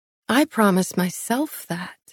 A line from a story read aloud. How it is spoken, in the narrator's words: I murmured, as a cold slice of unease pierced through me